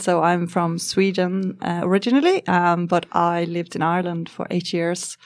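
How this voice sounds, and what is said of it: Slight Scandinavian accent, partly Irish. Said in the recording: “it's not quite a full-on Irish accent ... You can probably hear a little bit of Scandinavian in my accent.”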